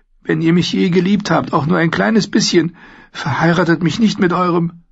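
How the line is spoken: Pleading. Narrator (German): flehte

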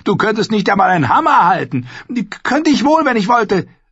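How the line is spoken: Snarling. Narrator (German): fauchte

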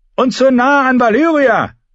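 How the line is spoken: Shouted. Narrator (German): schrie Quellon Humble

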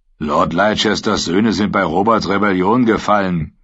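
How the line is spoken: Growled. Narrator (German): knurrte Zitt

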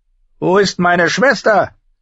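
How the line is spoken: Thick, wine-slurred shout. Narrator (German): rief Viserys, und seine Stimme war belegt vom Wein

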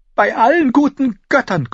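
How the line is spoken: Gasped. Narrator (German): keuchte

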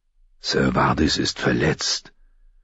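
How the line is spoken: Grave, serious statement. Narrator (German): stellte Sir Roderick mit ernster Stimme fest

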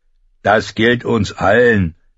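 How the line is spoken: Fat man calling. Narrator (German): rief der dicke Mann

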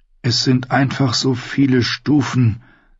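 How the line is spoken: Sighed. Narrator (German): seufzte

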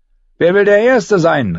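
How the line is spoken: Called out. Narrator (German): rief

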